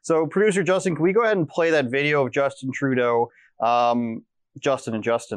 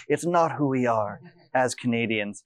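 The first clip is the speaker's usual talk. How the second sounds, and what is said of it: Imitates another person's voice. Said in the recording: “my best Ben Bankus Trudeau impersonation.”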